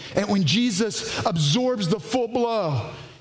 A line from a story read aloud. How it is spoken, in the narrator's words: he cries out